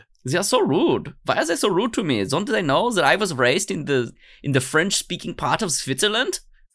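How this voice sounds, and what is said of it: Put-on German accent. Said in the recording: “that's why I have this German accent ... it just comes out as a German accent speaking English”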